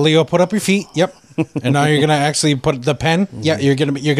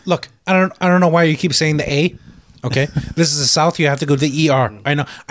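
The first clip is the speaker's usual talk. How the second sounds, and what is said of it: Imitates another person's voice. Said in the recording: “my Tarantino impression”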